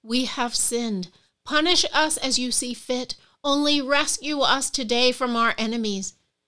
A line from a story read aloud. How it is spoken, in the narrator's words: pleaded and said